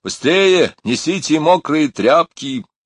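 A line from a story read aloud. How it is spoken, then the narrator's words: Shout. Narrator (Russian): крикнул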